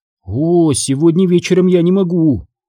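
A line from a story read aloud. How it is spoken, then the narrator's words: Uncertain young woman. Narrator (Russian): неуверенно ответила девушка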